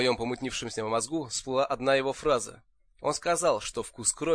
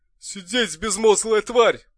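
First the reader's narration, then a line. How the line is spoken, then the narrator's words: Roaring. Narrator (Russian): взревел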